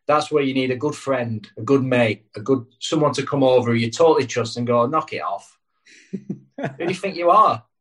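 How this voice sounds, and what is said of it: Northern English accent. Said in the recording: “with that northern accent as well, it just goes a little bit further”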